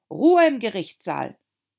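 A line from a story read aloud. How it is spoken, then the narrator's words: Shout. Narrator (German): das weiße Kaninchen schrie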